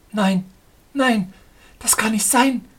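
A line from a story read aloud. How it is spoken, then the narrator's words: Hasty cry. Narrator (German): rief sie hastig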